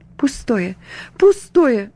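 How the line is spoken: Sighing through tears. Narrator (Russian): вздыхала она наконец сквозь слезы

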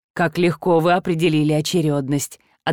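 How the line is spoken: Approving grunt. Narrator (Russian): одобрительно хмыкнул Орте Сигуран

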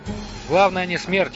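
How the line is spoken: Plain. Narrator (Russian): ответил Лотар

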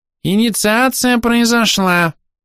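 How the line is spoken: Thin high squeak. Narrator (Russian): удивительно тонким голосом пискнул Верховный Хорох

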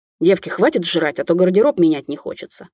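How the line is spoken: Barked. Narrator (Russian): моя подружка рявкнула

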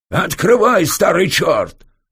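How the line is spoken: Yelling, terrifying voice. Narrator (Russian): заорал дядя Володя страшным голосом

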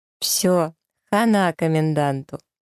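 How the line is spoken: Speaking through laughter. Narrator (Russian): Аннушка беззвучно хохочет, потом говорит сквозь смех

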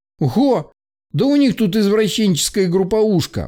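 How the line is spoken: Exclamation. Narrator (Russian): воскликнул Белый

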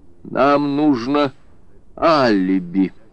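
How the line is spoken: Timid forced words. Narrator (Russian): наконец робко выдавил из себя

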